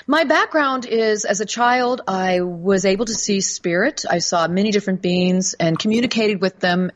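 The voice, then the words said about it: American accent. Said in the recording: “I live in the United States. I have a different accent than your probably listening audience”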